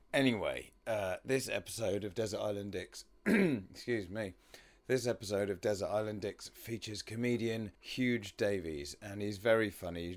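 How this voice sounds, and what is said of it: Croaky, hoarse voice with squeaks. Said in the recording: “I'm losing my voice a little bit, so I sound especially croaky and weird today, and excuse any pubescent squeaks and pops.”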